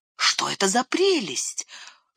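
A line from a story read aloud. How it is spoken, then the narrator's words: Whisper. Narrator (Russian): шепнул Сэм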